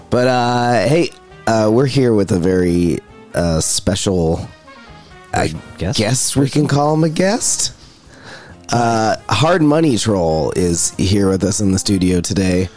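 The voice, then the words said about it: Raspy voice. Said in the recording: “My voice is very raspy today.”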